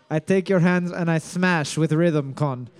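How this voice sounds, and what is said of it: Put-on Russian accent. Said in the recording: “you're better at a Russian accent than you are at a Spanish one”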